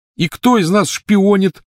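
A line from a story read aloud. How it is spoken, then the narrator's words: Shout. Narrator (Russian): закричал он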